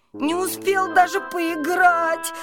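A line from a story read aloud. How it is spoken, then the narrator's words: Whimpering. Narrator (Russian): хныкал он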